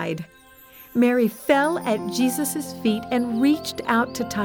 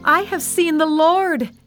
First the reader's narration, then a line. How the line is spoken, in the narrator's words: she shouted to the disciples